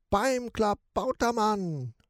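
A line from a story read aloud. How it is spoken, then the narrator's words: Rat sailor screaming. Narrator (German): schreit die Ratte, der Matrose des Schiffs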